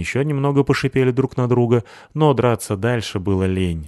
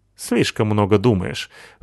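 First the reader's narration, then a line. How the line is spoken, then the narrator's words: Snorting. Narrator (Russian): фыркнул Рыжопиус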